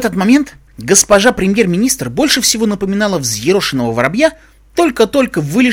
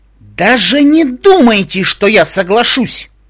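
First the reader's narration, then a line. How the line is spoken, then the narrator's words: Sharp, irritated. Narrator (Russian): резко сказала Твайлайт, раздраженно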